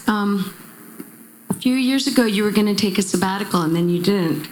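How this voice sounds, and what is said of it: Very loud speaking voice. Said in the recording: “I could just talk in my very loud voice.”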